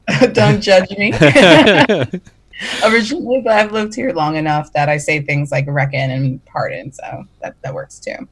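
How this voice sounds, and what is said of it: New York accent. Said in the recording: “where's your accent from? ... I'm from New York.”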